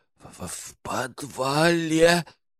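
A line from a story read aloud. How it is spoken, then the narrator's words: Hoarse wheezing guard. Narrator (Russian): прохрипел постовой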